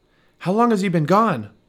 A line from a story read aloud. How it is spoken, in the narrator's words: Michael's dad shouted over his shoulder to Justin